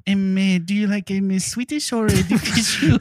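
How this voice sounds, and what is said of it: Put-on foreign accent. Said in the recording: “You have a great accent.”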